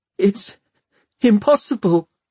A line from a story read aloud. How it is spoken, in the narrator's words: Tom whimpered